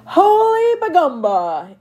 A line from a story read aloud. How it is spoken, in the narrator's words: He stopped laughing only once, long enough for him to shout